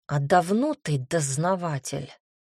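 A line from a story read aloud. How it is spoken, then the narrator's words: Hiss through teeth. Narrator (Russian): сквозь зубы прошипел Маркель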